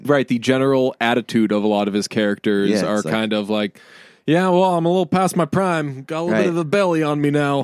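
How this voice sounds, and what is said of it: Imitates another person's voice. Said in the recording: “That's my Denzel impression”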